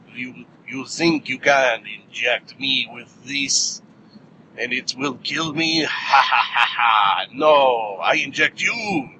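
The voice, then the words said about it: Bad put-on Russian accent. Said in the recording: “Oh, God, that's a bad accent. ... That was a horrible, horrible Russian accent.”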